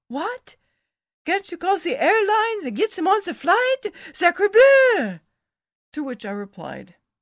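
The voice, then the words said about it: French accent. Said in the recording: “in his nice French accent”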